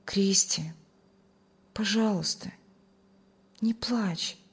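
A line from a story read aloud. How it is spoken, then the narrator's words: Tender, loving voice. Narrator (Russian): с любовью и заботой ласково сказал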